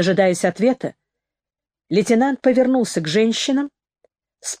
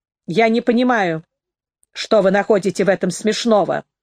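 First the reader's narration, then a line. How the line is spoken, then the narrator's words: Sharp reply. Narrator (Russian): резко ответила Нэнси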